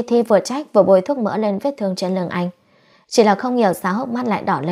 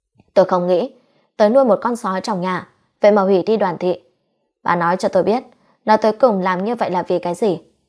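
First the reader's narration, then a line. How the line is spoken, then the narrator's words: Angry. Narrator (Vietnamese): Đoàn Kế Hùng tức giận nói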